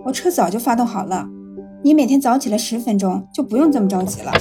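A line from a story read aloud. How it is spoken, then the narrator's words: Unhurried soft scolding. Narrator (Chinese): 吴婷倒是不紧不慢的，轻声的数落女儿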